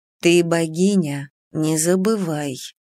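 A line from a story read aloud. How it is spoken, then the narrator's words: Barely audible whisper. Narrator (Russian): прошептала она едва слышно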